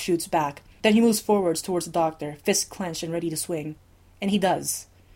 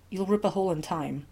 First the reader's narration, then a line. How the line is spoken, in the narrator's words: the Doctor mutters around the pain in his face